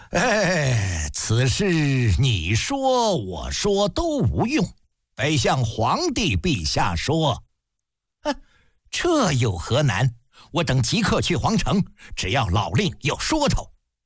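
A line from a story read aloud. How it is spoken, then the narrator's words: Laughing. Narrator (Chinese): 郑国……笑道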